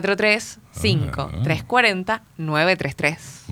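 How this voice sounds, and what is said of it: Seductive radio announcer voice. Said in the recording (Spanish): “¿Vio la voz de locutora que tiene? ... Qué seductora.”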